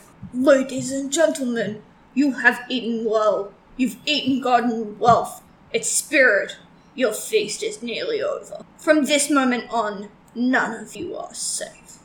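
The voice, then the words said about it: Batman voice with Russian accent. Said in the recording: “That kind of sounds like a Russian Batman. ... You kind of went a little Molotov in there.”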